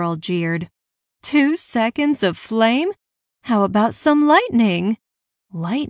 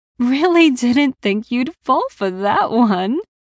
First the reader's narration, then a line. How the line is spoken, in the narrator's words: giggled